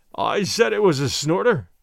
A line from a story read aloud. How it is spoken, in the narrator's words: he cried